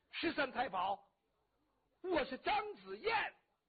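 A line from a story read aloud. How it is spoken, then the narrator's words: Urgent shout. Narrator (Chinese): 张子燕情急之下喊了一声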